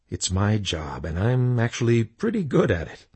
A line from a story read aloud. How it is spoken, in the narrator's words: Jesus said with a chuckle